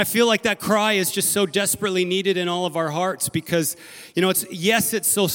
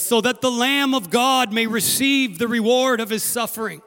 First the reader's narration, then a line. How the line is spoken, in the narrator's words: they cried out and they said